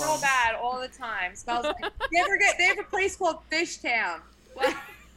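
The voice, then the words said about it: Put-on Delco Philadelphia accent. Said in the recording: “I will do the Delco accent right now ... that is the hardest accent, and I wish to master it on your level ... that's good to hear”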